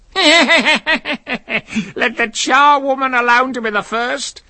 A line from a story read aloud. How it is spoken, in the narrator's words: cried she who had entered first